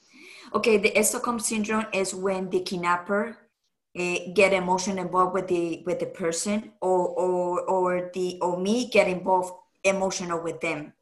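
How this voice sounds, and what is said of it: Non-native English accent. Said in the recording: “I don't know how to pronounce it right because my accent.”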